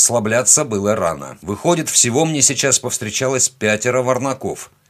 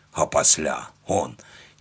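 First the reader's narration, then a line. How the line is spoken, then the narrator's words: Displeased grumble. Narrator (Russian): Недовольно пробурчал пластун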